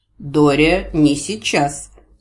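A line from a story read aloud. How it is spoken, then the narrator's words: Stern rebuke. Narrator (Russian): строго осадил ее Гворий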